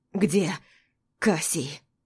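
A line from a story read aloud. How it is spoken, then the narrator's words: Hoarse hateful question. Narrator (Russian): Хрипло, но с ненавистью в тоне спрашивает он у меня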